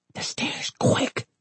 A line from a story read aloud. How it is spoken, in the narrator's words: he hissed